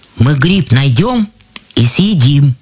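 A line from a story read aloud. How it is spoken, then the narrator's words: Plain. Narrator (Russian): сказал Иван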